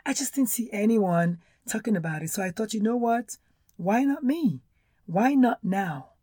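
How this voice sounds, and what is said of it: Nigerian accent, hoarse voice. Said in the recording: “a Nigerian-born doctor ... my accent and my hoarseness”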